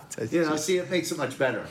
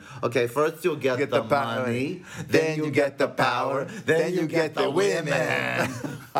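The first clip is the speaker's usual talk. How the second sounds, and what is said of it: Exaggerated movie gangster accent impression. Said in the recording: “we're just making fun of Al Pacino... doing Tony... it's such a crazy accent that he adopted”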